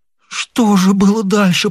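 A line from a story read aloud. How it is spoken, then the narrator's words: Groaned. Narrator (Russian): простонал он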